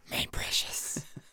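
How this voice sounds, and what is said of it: Smeagol character voice. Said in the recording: “I'm a Schmeagle ... do the voice”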